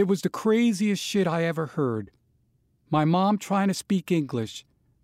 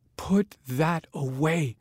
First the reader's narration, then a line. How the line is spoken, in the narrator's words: my mother whispered